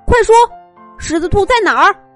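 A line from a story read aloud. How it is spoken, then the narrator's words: Aggrieved. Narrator (Chinese): 金太郎委屈的说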